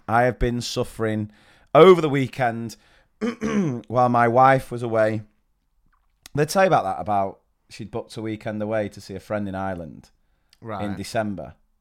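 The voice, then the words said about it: Hoarse voice. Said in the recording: “you may be able to tell from my hoarse voice that I am just about recovering from one of the worst doses of man flu”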